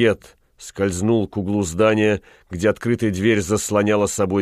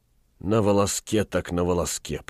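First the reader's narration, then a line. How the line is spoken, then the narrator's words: Whispering. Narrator (Russian): прошептал он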